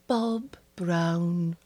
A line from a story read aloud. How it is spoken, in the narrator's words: she said wistfully